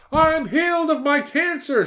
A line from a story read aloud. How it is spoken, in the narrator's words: she yelled